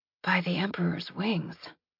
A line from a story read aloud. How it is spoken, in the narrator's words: Lizzie said softly